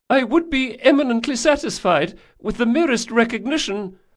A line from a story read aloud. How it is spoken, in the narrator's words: added the younger duelist, his voice was high and nervous